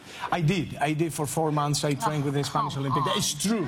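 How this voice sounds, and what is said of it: Spanish accent. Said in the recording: “Quick vote for the Spanish accent.”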